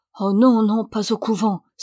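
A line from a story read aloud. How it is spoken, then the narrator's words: Very agitated exclamation. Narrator (French): s'écria Alessandro très agité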